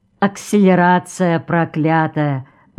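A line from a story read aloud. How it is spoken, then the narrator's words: Sigh from corner. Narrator (Russian): вздохнул кто-то в углу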